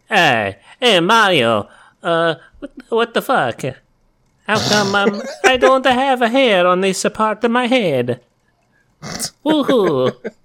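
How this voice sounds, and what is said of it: Italian-accented imitation of a sitcom character. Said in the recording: “What does Italian Costanza sound like?”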